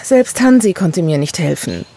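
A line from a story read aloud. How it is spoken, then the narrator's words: Sighed. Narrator (German): seufzte Gerda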